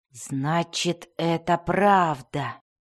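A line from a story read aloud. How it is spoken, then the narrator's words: Quiet moan. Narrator (Russian): тихо простонал Белвар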